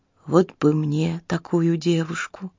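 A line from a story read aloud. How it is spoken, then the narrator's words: Whisper. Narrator (Russian): шепнул он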